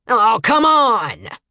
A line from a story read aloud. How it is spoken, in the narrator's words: Owl yelled